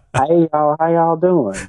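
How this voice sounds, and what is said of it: Southern drawl. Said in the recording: “my Southern drawl tends to come back”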